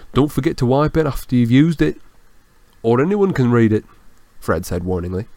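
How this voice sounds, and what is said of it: Usual voice. Nothing is said of it.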